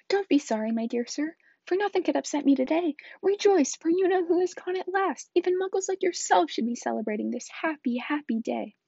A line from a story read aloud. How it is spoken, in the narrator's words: his face split into a wide smile, and he said in a squeaky voice